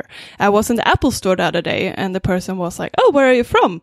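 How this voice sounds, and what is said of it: Swedish accent in English. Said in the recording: “I don't think my English is bad in general, but I think I do have an accent ... I'm originally from Sweden”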